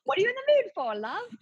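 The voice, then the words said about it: Poor imitation of British accent. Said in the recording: “I'm so bad at his accent. ... He's British, right?”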